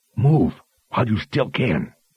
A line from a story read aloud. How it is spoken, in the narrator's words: The woman in red leather behind her growled under her breath